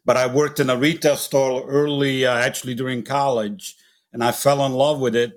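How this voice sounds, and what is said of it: Italian accent. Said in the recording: “I'm originally actually from Italy, as you can tell by my accent”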